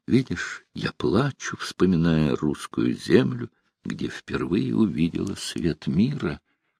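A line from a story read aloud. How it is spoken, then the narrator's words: Tearful whisper. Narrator (Russian): Вытирая платком слезы, королева шептала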